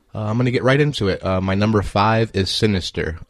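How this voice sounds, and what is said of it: Groggy, sleepy-sounding voice. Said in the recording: “my voice sounds different, it's because I just woke up”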